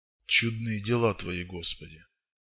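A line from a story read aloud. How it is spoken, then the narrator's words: Barely audible whisper. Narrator (Russian): чуть слышно прошептал он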